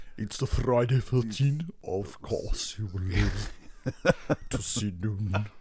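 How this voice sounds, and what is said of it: Theatrical Transylvanian warlock voice. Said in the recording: “going full kind of Transylvanian warlock overlord ... That was really good. ... 6 out of 10”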